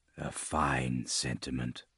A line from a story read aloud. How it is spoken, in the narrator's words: Yare said quietly